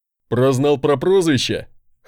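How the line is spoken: Short chuckle. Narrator (Russian): хохотнул мой носильщик

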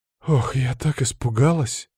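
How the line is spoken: Sudden sigh. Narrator (Russian): вздохнула вдруг Инга

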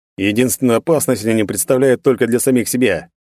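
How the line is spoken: Contemptuous scoff. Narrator (Russian): презрительно хмыкнул Альмарил

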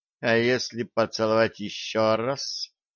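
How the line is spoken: Gloomy young woman. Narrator (Russian): мрачно спросила девушка

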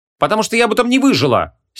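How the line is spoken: Angry. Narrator (Russian): сердито ответила Вон

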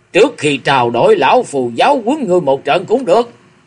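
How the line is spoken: Grief-stricken furious shout. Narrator (Vietnamese): Độc Cước Diêm La vốn đã đầy bụng bi phẫn, lão quát lớn

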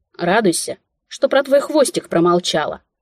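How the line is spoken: Snapping retort. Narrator (Russian): огрызнулась

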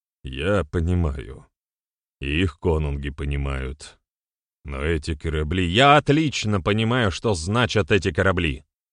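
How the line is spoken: Rough interruption. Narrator (Russian): Несколько грубо перебил отца Берослав

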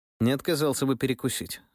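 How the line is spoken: Perfectly calm statement. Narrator (Russian): совершенно спокойно сообщил я

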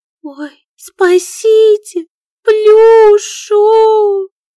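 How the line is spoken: Sobbing to exhaustion. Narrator (Russian): всхлипывала она, пока не устала даже плакать

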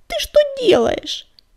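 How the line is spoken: Indignant child's squeak. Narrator (Russian): возмущенно запищал малыш

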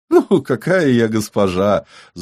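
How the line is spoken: Ringing laughter, woman. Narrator (Russian): звонко рассмеялась журналистка

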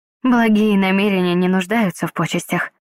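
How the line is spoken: Soft interruption. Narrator (Russian): прервала я его мягко

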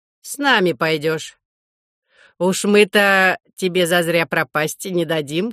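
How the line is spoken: Laughing remark. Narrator (Russian): хохотнул второй

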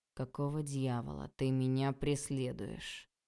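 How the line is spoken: Calm question. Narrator (Russian): Спросил владыка все так же спокойно

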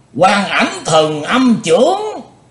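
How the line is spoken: Joyful group exclamation. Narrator (Vietnamese): Các cao thủ ngũ đại phái cả thải đều vui mừng kêu lên

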